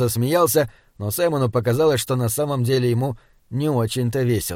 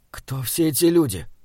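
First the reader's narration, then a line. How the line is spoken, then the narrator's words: Young man whispering. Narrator (Russian): прошептал юноша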